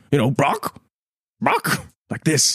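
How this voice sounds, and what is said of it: Imitated bird call. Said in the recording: “it's a very good impression.”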